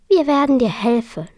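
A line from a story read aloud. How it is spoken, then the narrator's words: Plain. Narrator (German): sagte Carola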